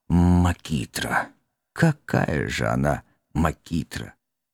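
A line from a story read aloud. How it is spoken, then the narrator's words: Sleepy, halting mumble. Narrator (Russian): Уже засыпая, в полусонном забытьи благородный сэр Гамильтон-младший сбивчиво пробормотал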